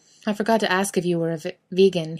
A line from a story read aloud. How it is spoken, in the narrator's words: he asks with a half laugh